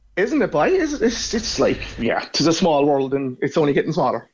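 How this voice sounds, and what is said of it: Irish Cork accent. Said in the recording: “I hear your accent ... you're from Cork. And from that accent, I'd say you're one of those Norries”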